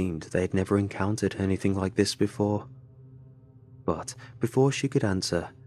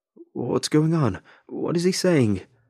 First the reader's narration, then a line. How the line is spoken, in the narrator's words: The man frantically called out